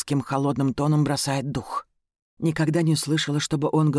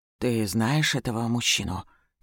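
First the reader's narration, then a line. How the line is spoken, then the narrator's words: Quiet question. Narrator (Russian): тихо спрашивает Ильрид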